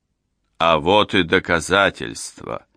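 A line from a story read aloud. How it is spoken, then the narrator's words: Thunderous proclamation. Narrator (Russian): Громовым голосом возвестил он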